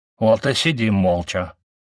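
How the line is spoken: Mumbled with full mouth. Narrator (Russian): с набитым ртом пробурчал Гиена

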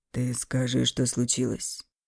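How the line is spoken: Soft but insistent. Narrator (Russian): Мягко, но настойчиво повторил он

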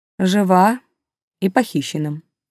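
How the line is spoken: Unnaturally calm statement. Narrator (Russian): каким-то слишком спокойным голосом констатировал Силь

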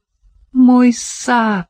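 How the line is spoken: Moaning. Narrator (Russian): простонала Сарина

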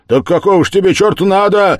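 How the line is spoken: Shouting from above. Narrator (Russian): закричал сверху Разумихин

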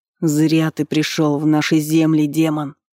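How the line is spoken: Hoarse growl. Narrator (Russian): Хрипло прорычал еще один наемник

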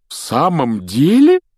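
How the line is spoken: Delighted exclamation. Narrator (Russian): с нескрываемым восторгом воскликнул мистер Уизли

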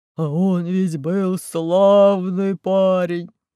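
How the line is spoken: Growl. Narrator (Russian): прорычал

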